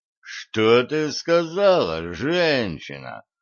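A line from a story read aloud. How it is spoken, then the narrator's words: Menacing. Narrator (Russian): грозно нахмурился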